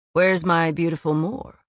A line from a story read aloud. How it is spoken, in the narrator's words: Az said tightly